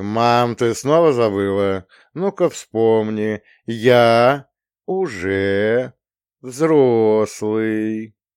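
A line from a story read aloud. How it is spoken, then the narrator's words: Coaxing, syllable by syllable. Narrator (Russian): произнес я вкрадчиво, едва ли не по слогам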